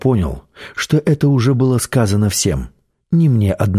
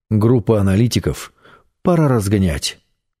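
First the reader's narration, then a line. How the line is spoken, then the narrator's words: Plain. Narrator (Russian): сказал шеф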